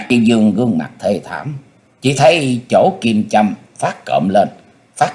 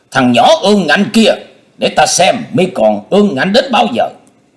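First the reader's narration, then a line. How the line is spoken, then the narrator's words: Loud furious voice. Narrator (Vietnamese): Trương Thiên Ý mắt nổ lửa lớn tiếng nói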